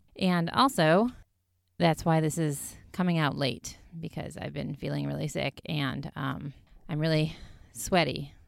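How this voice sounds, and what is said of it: Congested voice from a cold. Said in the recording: “I sound congested ... I now have a terrible cold”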